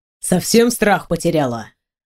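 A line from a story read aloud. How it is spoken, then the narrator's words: Angry. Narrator (Russian): зло бросил мужчина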